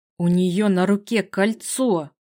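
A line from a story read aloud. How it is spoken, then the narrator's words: Hissing through teeth. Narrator (Russian): процедил сквозь зубы Василиск, и, по-моему, в его голосе послышалось змеиное шипение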